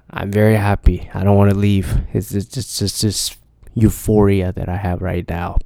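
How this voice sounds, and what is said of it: Tired-sounding voice. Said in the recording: “you could hear from my voice that I sound pretty tired”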